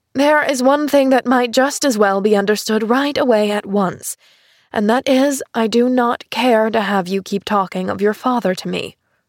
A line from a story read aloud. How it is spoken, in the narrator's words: interrupted her aunt again, sharply